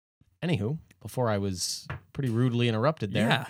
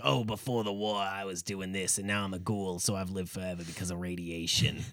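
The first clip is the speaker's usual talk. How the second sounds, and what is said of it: Raspy, rough character voice. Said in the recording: “I sound like I have lung cancer ... That's a pretty good impression, actually.”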